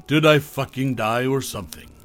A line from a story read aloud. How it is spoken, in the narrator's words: Margie chuckled